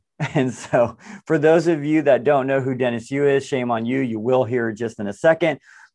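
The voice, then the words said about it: Hoarse, fading voice from a cold. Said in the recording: “even with a cold, losing my voice”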